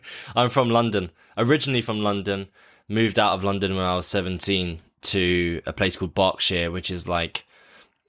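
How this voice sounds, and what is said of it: Non-American English accent. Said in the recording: “I'm guessing you are not from the United States of America ... I want your accent. I'm really jealous.”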